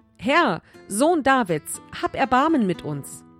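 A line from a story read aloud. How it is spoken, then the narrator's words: Loud group plea. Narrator (German): riefen laut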